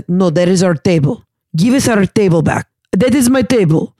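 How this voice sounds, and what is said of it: Thick Russian accent, touch of German. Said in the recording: “huge, what I thought was maybe like a German Danish guy, but with a thick like Russian accent”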